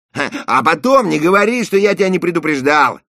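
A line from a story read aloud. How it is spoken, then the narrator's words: Shout. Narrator (Russian): крикнул Эрик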